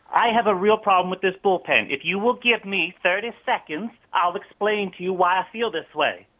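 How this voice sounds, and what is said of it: Southern American accent. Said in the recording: “why you have a southern accent”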